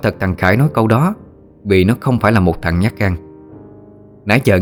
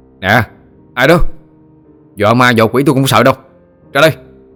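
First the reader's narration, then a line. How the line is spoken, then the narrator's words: Shout. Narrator (Vietnamese): Nó quát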